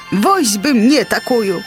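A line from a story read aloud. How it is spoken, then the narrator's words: Exclamation. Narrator (Belarusian): усклікнуў містер Воцат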